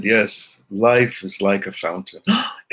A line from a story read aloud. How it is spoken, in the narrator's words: he sighed and he said